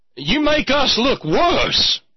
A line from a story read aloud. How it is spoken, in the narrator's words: yell at the assembled traitors